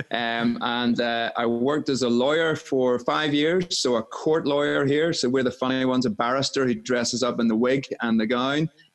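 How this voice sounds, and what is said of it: Northern Irish Belfast accent. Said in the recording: “I'm based in Northern Ireland in Belfast. That's the strange accent that you'll hear.”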